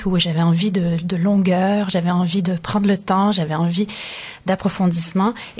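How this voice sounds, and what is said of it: Slight North American French accent. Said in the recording (French): “votre petit accent d'outre-Atlantique”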